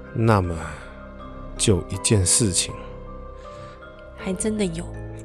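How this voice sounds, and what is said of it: Quiet, hushed voice. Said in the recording (Chinese): “小声的说了”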